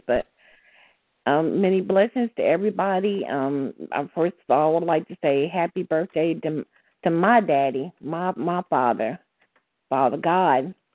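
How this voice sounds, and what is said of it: Strange-sounding voice. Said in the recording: “my voice is kind of sounding kind of strange”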